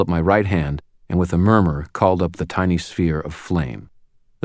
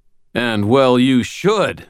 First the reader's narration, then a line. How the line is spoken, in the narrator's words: bellowed